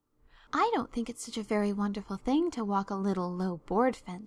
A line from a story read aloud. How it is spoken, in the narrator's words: she said